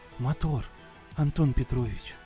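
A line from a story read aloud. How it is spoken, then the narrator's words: Sailor's whisper. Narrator (Russian): прошептал матрос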